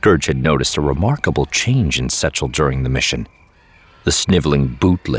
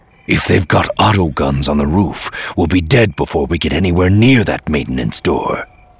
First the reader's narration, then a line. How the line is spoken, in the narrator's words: Scourge growled